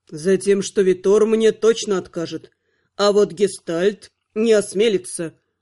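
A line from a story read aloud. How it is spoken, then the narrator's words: Grim smirk. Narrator (Russian): мрачно усмехнулся Анхайлик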